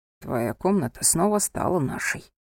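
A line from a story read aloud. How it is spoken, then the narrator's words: Whisper in the ear. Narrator (Russian): шепнул Софии на ухо Анхель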